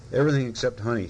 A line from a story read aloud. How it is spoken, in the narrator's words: said Tiger